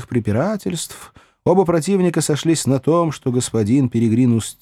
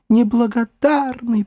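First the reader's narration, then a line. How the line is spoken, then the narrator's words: Moaning. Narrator (Russian): простонала она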